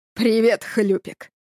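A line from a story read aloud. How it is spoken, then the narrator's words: Growled. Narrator (Russian): прорычал Сережа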